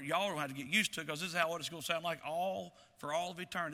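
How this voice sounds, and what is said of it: Thick rural Virginia country accent. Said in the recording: “I grew up in Chilhowee, Virginia, and we're country, and I'm a country bumpkin, and how many of you think I've got an accent? And the more I spend time in Chilhowee, the thicker it seems to get.”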